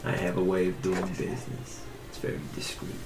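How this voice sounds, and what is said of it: Distinct, odd-sounding put-on character accent. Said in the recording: “Why do you say it so weird? ... that accent ... it's very distinct from everybody else”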